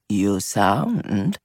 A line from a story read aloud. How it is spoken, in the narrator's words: Gigi murmured